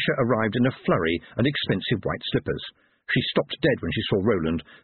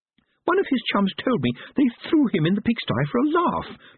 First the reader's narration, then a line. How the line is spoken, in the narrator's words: Letitia said indignantly